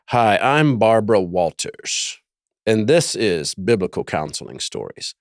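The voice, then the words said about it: Imitates another person's voice. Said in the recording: “do a Barbara Walters impression.”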